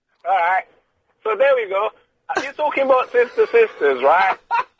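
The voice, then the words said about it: Put-on Northern English accent. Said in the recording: “I like you doing a northern accent. That's very, very funny for some reason... Can you do the whole phone conversation in the accent?... Northern”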